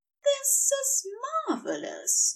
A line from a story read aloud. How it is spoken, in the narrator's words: said happily